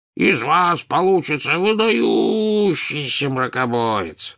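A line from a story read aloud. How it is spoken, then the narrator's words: Booming drone. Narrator (Russian): прогудел Слизнорд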